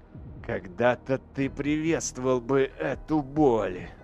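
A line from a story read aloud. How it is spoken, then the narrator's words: Growling. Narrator (Russian): зарычал Эйдолан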